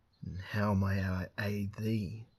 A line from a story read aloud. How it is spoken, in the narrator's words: purred